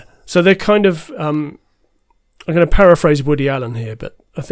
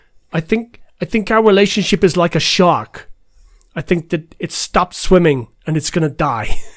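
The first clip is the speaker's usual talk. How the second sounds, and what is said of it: Christopher Walken-like Woody Allen impression. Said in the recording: “It sounds like Christopher Walken ... it sounds like Christopher Walken doing an impression of... Of Woody Allen. So it's not bad.”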